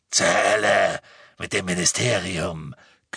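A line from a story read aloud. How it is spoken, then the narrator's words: Growl. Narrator (German): knurrte Greyback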